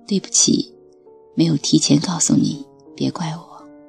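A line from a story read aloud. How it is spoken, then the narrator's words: Shy, low voice. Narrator (Chinese): 他有点羞涩地……低声说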